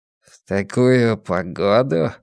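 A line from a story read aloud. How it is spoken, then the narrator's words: Gloomy reply. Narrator (Russian): мрачно ответил Блор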